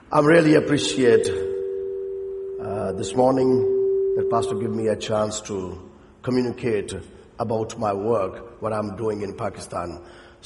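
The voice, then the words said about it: Voice not in good shape. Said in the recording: “my voice is not all good, but I can shout”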